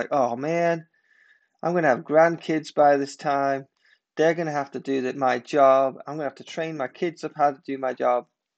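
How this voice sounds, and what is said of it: Sarcastic mock-complaining voice. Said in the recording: “I'm being sarcastic”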